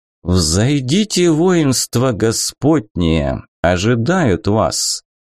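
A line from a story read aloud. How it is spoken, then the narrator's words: Quiet but remarkably clear voice. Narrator (Russian): тихим, но удивительно ясным голосом произнес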